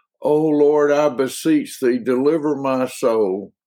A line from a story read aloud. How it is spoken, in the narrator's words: he cried